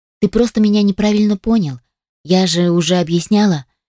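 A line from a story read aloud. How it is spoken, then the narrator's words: Sad sigh. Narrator (Russian): печально вздохнула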